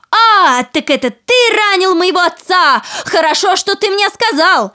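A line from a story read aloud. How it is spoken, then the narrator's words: Woman shouting. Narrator (Russian): жена закричала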